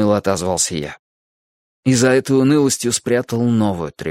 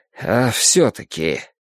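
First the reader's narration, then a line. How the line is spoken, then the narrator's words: Resigned sigh. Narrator (Russian): Юджин покорно вздохнул, но сказал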